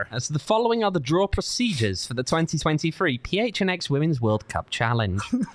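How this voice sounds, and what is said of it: Mock official IFAB announcer voice. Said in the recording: “your best IFAB impression”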